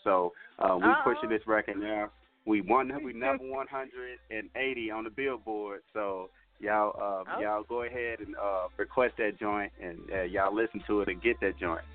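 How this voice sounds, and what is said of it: Radio commercial announcer delivery. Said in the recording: “I sounded like a commercial.”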